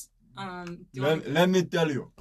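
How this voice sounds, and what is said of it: Impression of father's Portuguese accent. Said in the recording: “Every time I impersonate dad, everybody thinks I'm doing a fucking Russian dude ... Dad's from Portugal. ... his every move, voice, accent. ... It's really good. He probably does the best impression.”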